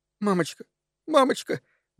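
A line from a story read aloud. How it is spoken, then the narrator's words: Trembling little girl's voice. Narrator (Russian): дрожащим голоском сказала маленькая девочка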